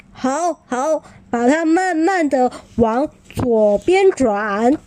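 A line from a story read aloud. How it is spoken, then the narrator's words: Calling out. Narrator (Chinese): 那个声音叫着小琪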